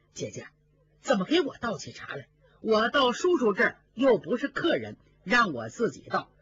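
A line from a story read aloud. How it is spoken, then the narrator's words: Hurried. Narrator (Chinese): 贾云急忙 赶紧说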